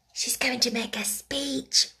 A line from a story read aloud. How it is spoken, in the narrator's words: whispered one of the girls